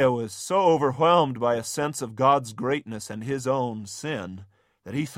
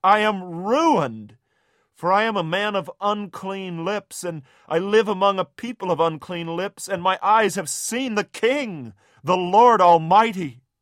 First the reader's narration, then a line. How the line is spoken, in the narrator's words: he cried